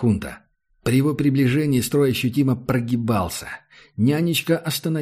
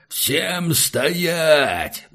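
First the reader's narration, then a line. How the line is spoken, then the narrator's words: Roared. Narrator (Russian): взревел Хунта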